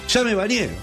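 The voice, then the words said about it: Shouting. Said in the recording (Spanish): “¿Por qué gritas?”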